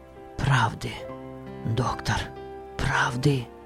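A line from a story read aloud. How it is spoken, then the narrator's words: Intense whisper. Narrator (Russian): Он говорил шепотом, но с сильным чувством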